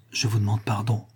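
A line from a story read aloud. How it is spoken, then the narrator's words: Low, ashamed voice. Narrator (French): dit Varin à voix basse, presque honteux de pénétrer dans cette intimité douloureuse de la mère au désespoir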